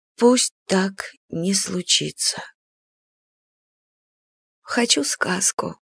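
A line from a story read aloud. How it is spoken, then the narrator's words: Quiet request. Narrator (Russian): Попросила тихо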